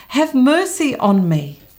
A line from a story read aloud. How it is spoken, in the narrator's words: he cries out